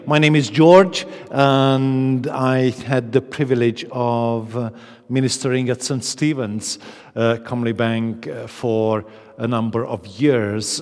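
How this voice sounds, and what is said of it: Transylvanian foreign accent in English. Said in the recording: “As you can hear from my accent, I'm not quite from Comley Bank originally ... I'm originally from Transylvania.”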